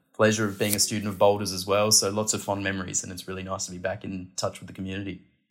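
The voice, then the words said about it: Australian accent. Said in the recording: “as the audience can hear, you are Australian. You have a funny, funky accent.”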